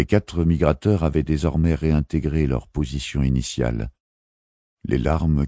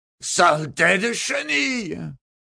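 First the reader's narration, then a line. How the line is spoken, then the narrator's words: Man screaming. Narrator (French): hurla l'homme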